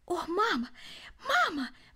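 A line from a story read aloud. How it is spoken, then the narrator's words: Exclaiming. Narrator (Russian): воскликнул он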